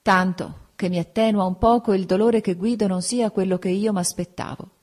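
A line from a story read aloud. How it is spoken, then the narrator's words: Sighing. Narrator (Italian): con un sospiro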